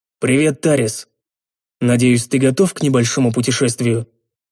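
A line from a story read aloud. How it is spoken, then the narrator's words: Casual everyday tone. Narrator (Russian): я будничным тоном произнес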